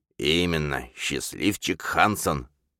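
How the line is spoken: Wry snort. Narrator (Russian): Мутный хмыкнул

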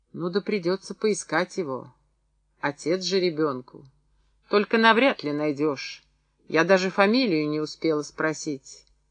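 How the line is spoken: Gentle. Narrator (Russian): Мария Дмитриевна мягко проговорила

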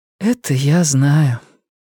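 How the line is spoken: Tired, smiling female voice. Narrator (Russian): она устало улыбнулась

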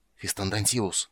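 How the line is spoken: Hiss. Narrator (Russian): прошипел один

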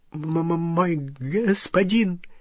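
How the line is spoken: Stammering goblin babble. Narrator (Russian): залепетал гоблин, запинаясь

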